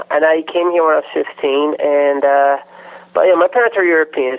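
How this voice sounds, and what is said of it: Latino-sounding accent. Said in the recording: “I do not hear a trace of an Australian accent... you sound like you're Latino”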